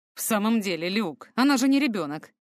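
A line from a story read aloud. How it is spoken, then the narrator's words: Grumbling. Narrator (Russian): ворчал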